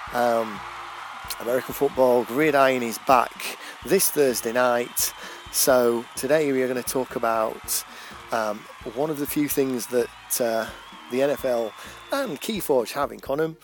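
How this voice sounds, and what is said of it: English accent. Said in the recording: “Obviously, I'm English, it's pretty clear from my accent”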